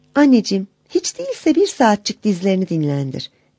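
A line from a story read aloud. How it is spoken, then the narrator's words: Sweet, respectful voice. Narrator (Turkish): Tatlı ve saygılı bir sesle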